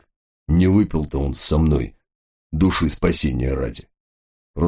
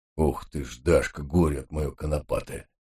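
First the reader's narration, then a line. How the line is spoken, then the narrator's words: Heavy sigh, old man. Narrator (Russian): Тяжело вздохнул батюшка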